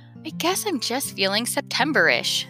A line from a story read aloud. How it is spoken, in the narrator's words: sighed Chester